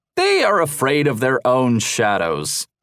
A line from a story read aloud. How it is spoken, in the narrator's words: Roche jeered